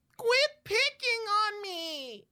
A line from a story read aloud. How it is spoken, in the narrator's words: She whines